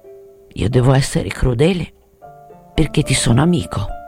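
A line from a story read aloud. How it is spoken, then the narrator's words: Murmur. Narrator (Italian): Mormorò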